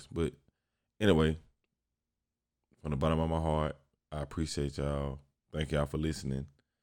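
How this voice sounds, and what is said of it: Tired-sounding voice. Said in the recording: “I'm recording this outro fresh off work. so I'm kind of tired. That's probably why. You can probably hear it in my voice”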